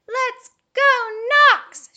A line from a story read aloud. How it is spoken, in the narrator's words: shouted Jerry, breaking the silence